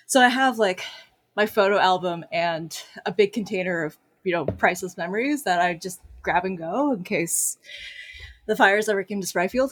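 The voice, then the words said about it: Out of breath speaking. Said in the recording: “God, why am I so out of breath?”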